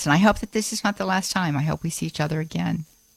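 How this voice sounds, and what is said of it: Choked-up, emotional voice. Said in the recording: “I got a little choked up there”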